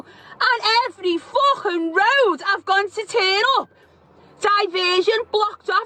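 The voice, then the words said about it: Angry rant, pitch rising much higher. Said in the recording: “the best part of the rant is when she goes up that extra couple of octaves”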